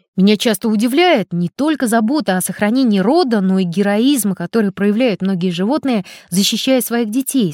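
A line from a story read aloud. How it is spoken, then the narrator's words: Plain. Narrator (Russian): сказал Громов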